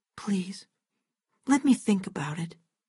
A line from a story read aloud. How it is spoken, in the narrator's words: she whispered